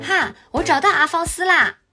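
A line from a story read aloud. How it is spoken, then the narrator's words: Shouting. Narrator (Chinese): 乔尼喊道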